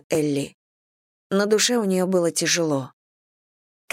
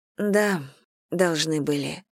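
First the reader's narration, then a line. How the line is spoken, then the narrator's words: Sigh. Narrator (Russian): вздохнула Элли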